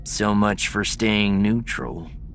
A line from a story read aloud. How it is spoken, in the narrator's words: Abe sighed